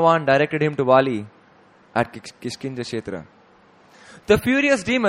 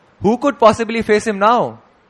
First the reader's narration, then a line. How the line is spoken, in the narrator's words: Angrily, Dundubi roared and demanded